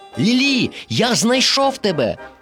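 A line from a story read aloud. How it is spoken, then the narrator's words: Joyful exclamation. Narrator (Ukrainian): радісно вигукнув Дорі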